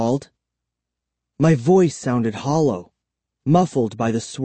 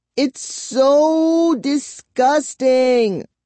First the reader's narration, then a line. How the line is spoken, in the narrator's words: she wailed